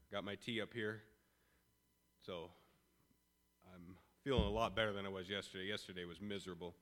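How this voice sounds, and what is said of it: Voice affected by a cold. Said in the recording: “Please excuse my voice. I've been fighting a cold these past couple days”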